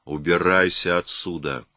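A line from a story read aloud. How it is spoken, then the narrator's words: Growling like chained dog. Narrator (Russian): Его голос был похож на рычание цепного пса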